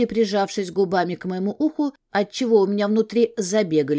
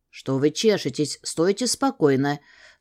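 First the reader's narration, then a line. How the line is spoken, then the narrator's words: Whispered in the ear. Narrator (Russian): снова прошептал мне в ухо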